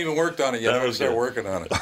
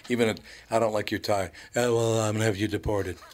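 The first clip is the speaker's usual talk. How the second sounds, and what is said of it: Imitates another person's voice. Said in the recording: “That was a good impression.”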